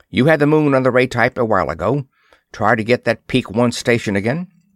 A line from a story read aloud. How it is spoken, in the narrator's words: he snapped